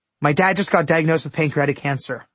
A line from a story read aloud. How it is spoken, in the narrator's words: I blurted